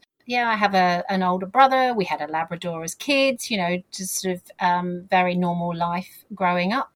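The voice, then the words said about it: Southern English accent. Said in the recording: “as you've picked up with my accent, I grew up in the south of England”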